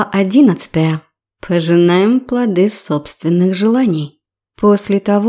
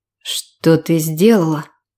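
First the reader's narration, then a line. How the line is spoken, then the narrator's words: Tired question. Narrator (Russian): устало спросил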